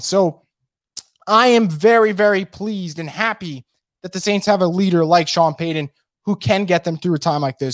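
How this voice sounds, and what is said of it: Strained, hoarse voice. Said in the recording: “I am like dying over here in terms of losing my voice.”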